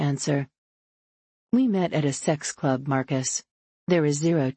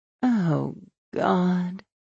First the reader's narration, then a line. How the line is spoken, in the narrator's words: groan